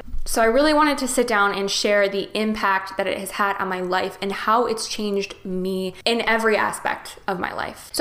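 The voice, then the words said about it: Choked up, emotional voice. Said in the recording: “I'm starting to get choked up right now just thinking about it... I'm just getting choked up right now talking about it”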